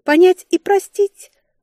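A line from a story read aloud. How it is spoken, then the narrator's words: Hinting. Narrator (Russian): намекнула я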